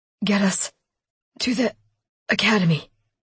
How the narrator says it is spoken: Lincoln told her weakly

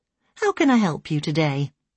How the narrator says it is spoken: the doctor asked kindly

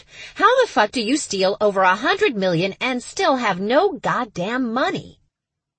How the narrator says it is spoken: she finally snapped

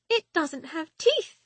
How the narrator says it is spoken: she says, her voice squeaking

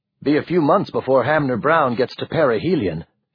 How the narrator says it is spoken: he added quickly

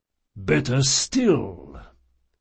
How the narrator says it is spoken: the priest rumbled

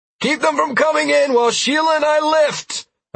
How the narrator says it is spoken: I yelled up to Trell

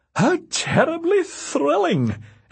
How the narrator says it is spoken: exclaimed Veronica

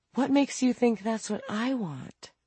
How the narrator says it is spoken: Franny sighed

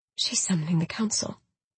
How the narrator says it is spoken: I whispered

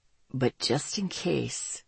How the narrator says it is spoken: he said softly

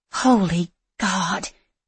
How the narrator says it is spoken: Sophia breathed out

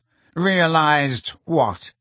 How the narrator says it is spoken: asked Snape sharply

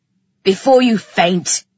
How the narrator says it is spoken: he growled

